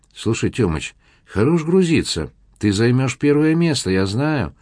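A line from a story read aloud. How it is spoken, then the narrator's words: Persuasive young man's voice. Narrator (Russian): убедительным голосом произнес парень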